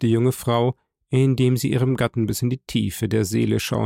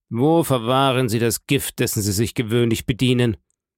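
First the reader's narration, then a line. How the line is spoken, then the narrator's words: Sharp, abrupt. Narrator (German): sprach scharf und ohne Einleitung der Staatsanwalt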